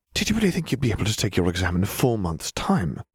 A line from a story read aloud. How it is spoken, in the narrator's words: Hermione hissed